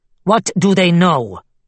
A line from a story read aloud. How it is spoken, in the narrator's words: Nizar said sharply